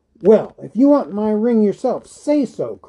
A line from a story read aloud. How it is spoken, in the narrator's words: cried Bilbo